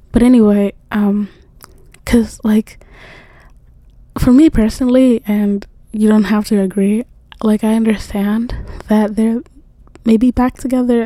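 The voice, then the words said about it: Strained, fading voice. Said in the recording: “I'm like really losing my voice,”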